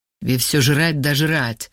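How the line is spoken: Angry grumble. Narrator (Russian): зло буркнул Вова

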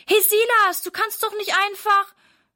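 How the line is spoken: Calls after someone. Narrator (German): ruft Sarah ihm hinterher

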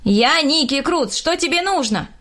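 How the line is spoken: Shouted. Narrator (Russian): крикнул

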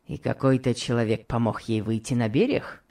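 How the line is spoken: Plain. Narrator (Russian): сказал Локер

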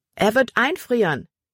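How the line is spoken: Calling out. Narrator (German): rief Libby Emma zu

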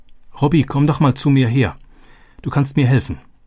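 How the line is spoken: Called out. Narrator (German): rief sie

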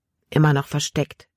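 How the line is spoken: Plain. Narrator (German): antwortete er

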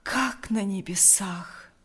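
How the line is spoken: Breathed out. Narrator (Russian): выдохнул Лукьян

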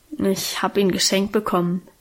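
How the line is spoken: Embarrassed murmur. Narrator (German): murmelte sie so verlegen, wie wir unsere Guste gar nicht kannten

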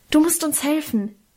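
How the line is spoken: Hasty call. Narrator (German): rief ich hastig

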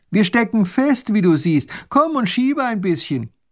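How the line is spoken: Calling out. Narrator (German): Der kleine Großherzog ruft

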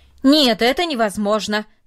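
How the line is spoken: Loud and firm. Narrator (Russian): сказал он, наконец, громко и твердо

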